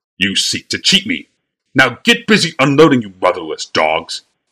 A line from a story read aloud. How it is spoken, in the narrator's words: sputtered Bly, a crimson hue crawling through his face